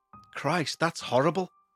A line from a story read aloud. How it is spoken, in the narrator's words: I muttered